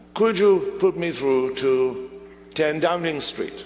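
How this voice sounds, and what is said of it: Very posh English accent. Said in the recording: “a very posh, very posh English accent”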